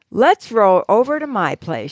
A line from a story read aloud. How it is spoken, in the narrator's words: she says